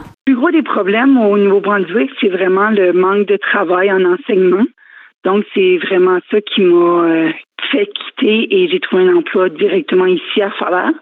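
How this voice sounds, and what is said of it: Acadian French accent. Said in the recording (French): “La culture acadienne, ça commence avec l'accent. Donc, mon accent est différent et je me le fais dire quand même assez régulièrement”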